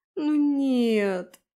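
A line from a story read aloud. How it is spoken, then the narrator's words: Dismayed whimper. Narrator (Russian): захныкала, замечая, как из-под двери сочится тонкая струйка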